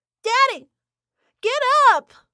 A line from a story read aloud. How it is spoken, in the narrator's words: My stomach churned, screaming